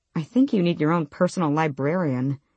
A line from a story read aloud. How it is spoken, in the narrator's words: she muttered